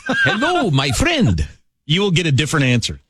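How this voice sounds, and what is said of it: Put-on accent. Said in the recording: “Adopt an accent.”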